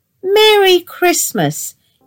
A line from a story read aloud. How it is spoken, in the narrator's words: piped up